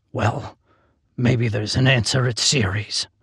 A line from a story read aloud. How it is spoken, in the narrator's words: I muttered